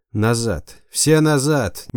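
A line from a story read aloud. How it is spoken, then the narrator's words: Strange-voiced howl. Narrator (Russian): не своим голосом взвыл Буян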